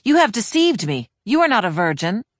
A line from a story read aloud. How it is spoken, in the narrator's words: her husband exclaimed